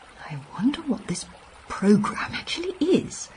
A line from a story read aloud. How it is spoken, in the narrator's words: I whispered to the doctor